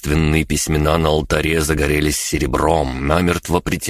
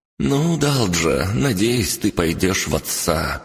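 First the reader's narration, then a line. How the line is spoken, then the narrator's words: Woman sighing heavily. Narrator (Russian): тяжко вздохнула женщина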